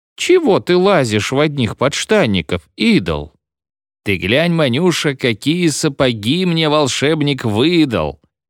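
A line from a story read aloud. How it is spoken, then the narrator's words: Soft squeak. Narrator (Russian): мягко пискнул Хикин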